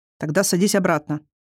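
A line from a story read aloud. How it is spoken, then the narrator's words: Stern command. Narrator (Russian): строго велел сказочный царевич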